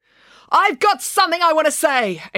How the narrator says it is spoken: April yelled into the microphone

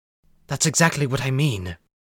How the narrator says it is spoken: Corey whispered sharply

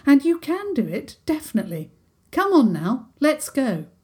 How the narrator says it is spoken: Princess Isabel said firmly

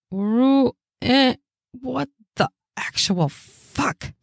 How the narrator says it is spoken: I hiss

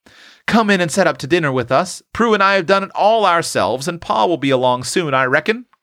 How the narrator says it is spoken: cried Tilly

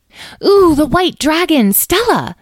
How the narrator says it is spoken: exclaimed Edwin

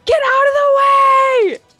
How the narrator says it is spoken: I'll yell out to Thelonious and Rebecca

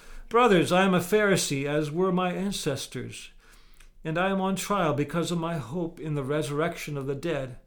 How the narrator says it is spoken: he shouted

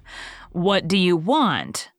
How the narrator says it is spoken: she said stiffly

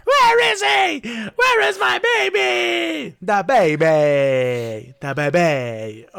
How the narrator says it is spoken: She started shrieking in rage and terror, screaming

